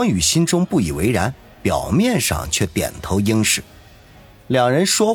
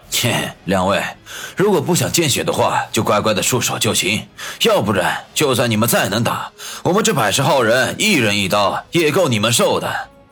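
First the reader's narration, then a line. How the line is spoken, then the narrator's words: Sneering chuckle. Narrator (Chinese): 双刀男嘿嘿笑道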